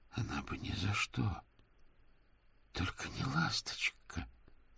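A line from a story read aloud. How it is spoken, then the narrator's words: Very quiet. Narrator (Russian): Дик повернулся к Мокрицу и очень тихо произнес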